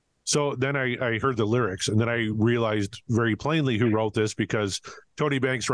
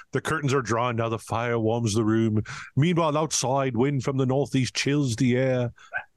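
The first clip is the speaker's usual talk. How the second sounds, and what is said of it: Put-on English accent. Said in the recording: “Are you doing an English accent or having a stroke”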